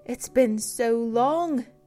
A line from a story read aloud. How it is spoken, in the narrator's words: gasped